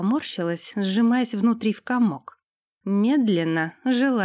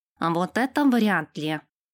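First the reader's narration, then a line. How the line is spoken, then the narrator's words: Nasal voice from behind. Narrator (Russian): Раздался за спиной гнусавый голос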